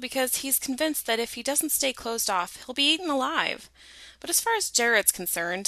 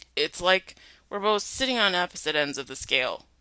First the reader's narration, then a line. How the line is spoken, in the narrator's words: he slurred